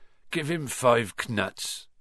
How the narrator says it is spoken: said Hagrid sleepily

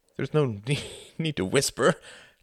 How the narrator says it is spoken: laughed Quentin

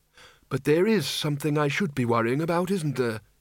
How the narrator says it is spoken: he said flatly

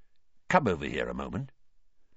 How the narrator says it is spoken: Weasley quietly

